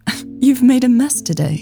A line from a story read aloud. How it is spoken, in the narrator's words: Elsa chuckled